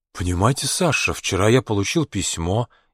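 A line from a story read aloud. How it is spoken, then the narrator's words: Barely audible. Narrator (Russian): еле слышно сказал он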